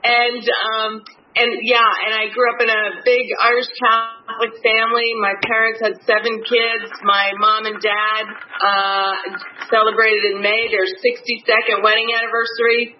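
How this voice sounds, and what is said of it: New Jersey accent. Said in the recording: “I'm sure you can tell from my accent, I'm not a native Floridian. I'm from the great state of New Jersey.”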